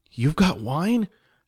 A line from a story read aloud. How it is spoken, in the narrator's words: Jess mumbled with a mouthful of food